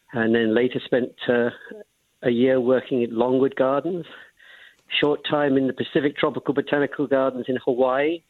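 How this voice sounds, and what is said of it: Slight English accent. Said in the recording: “I detect just a little bit of a hint of an accent ... I'm originally from England”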